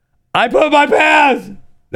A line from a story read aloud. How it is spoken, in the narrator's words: she yelled to her friends